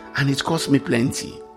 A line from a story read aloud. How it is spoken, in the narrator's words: the commander muttered